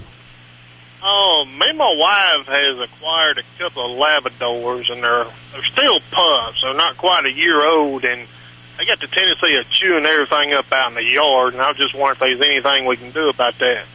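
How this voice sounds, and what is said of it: Strong, hard-to-understand regional accent. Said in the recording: “I love your accent. I am pretty sure Hal will need to give me some help to translate it.”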